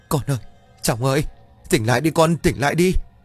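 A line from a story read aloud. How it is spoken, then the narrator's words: Anguished terrified wailing. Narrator (Vietnamese): Bà Hương gào thét trong đau đớn và sợ hãi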